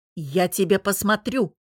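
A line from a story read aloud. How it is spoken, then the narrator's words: Barked. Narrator (Russian): рявкнула Лара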